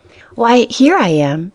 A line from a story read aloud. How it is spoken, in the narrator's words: she answered